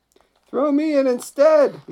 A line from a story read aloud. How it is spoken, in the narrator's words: he shouted to the sailors